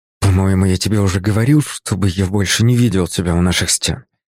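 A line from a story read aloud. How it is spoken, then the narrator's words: Hiss. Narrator (Russian): прошипел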